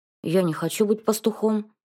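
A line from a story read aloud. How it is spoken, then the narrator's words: Grumbling. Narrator (Russian): заворчал Федя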